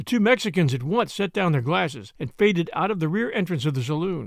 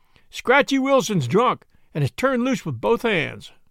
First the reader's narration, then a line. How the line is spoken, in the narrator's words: He cried